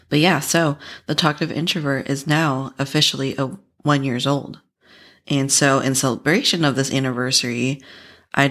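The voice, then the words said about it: Hoarse, raspy voice. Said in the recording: “my voice is pretty hoarse today, a little more raspier than usual”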